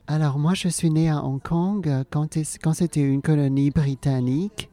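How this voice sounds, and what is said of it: French with mixed Alsatian-English accent. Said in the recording (French): “Je parle français avec un accent improbable ... mi-alsacien ... mi-anglophone, mi-shintok, on ne sait pas trop ce que c'est.”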